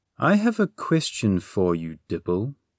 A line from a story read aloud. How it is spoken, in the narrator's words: she said a little too sweetly